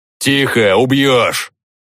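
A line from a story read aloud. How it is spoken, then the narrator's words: Barking shout. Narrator (Russian): гаркнул он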